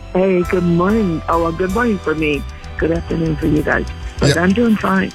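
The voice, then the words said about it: Slightly hoarse voice. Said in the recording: “A little bit hoarse. I have a little bit of a cold.”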